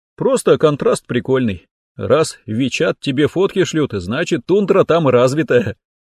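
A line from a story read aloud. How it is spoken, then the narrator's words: Chuckling. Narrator (Russian): хохотнул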